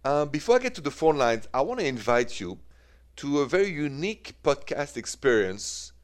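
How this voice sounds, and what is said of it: French-accented English. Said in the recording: “The accent is French.”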